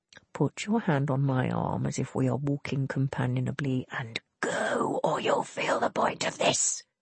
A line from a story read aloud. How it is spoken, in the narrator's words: he hissed